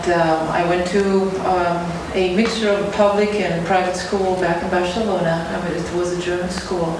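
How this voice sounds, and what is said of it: German accent. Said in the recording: “The accent you hear is German.”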